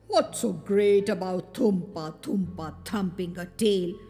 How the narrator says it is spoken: he muttered to himself

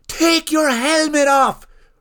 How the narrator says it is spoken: roared Bart

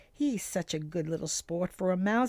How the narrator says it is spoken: he chuckled to himself

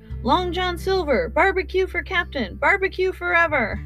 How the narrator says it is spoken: The men shouted

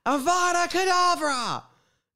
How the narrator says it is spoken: Kim Jiri screamed with a grin on his face

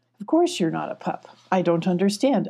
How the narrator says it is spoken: Alana said

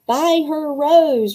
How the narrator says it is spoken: roared Rennie

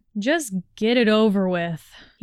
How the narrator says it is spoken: groaned

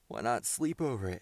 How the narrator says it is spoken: suggested Tom, with a drowsy yawn

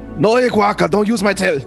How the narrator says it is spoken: I yell

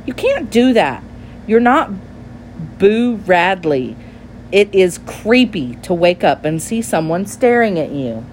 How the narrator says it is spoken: she cried

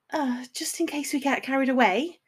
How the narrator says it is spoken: she said nervously

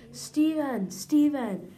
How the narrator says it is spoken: started to scream

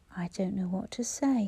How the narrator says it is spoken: he murmured

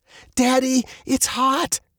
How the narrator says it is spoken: Veronica shrieked, the sweat pouring down her face

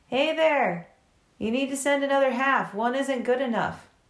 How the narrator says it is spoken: Hurricane sighs, and he looks up the chimney and calls

